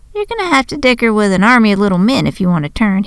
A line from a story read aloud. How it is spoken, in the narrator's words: he chuckled